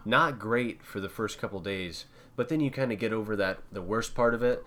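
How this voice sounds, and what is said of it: Slightly congested, nasal cold voice. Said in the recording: “I'm slightly congested. I've got that sexy voice... That sexy cold voice.”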